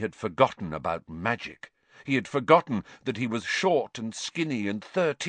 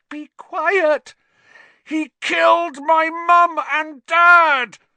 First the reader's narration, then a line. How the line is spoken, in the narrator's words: Harry roared